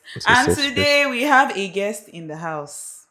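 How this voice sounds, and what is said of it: Preacher-like dramatic pausing delivery. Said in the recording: “Why are you sounding like a pastor? ... I'm pausing for suspense.”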